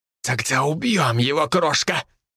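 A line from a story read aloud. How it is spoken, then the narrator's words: Hissed close to ear. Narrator (Russian): прошипел Бенито, почти коснувшись губами уха Элизабет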